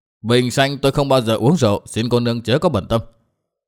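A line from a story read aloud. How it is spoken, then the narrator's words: Cold reply. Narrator (Vietnamese): Lãnh Công Tiêu vẫn lạnh lùng đáp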